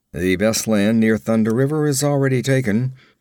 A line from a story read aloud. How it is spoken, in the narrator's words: grunted the slayer